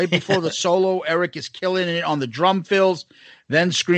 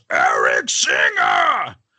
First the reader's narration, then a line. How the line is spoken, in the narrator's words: Gene yells